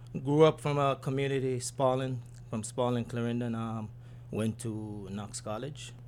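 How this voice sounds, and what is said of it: Jamaican accent. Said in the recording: “I'm from Jamaica, as you can probably hear with the accent.”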